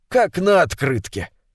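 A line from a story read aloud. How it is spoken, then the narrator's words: Snorted. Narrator (Russian): Гаев хмыкнул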